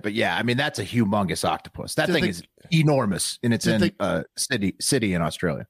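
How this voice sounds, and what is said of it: Attempted Australian accent. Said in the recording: “I can't really do analysis in Australian accent”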